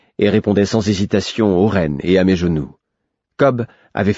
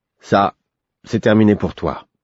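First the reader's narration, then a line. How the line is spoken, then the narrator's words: Firm. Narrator (French): me dit-il d'un ton ferme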